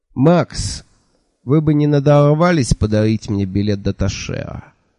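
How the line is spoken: Sad question. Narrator (Russian): печально спросил Анда

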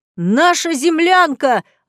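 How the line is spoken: Yelling. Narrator (Russian): орал ведущий

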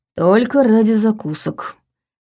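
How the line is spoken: Grumbling. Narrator (Russian): проворчал Ваня

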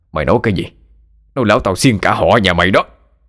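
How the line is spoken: Sobered-up shout. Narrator (Vietnamese): Lão Thân tỉnh cả rượu quát lên

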